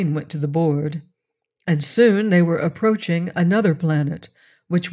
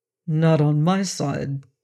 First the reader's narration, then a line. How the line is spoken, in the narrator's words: he said evenly